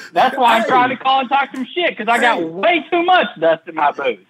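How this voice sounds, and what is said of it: Country-sounding American accent. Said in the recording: “Where are you from with that accent? You from Oklahoma? You a cowboy gangster? ... Country bitch?”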